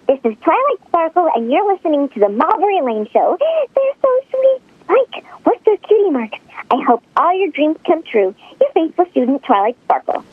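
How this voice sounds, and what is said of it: Cartoon character voice. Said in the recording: “Famous cartoon voice actress”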